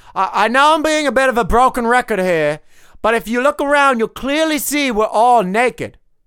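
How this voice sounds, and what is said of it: Put-on Australian or English accent. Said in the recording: “why are you speaking with an Australian/English accent?”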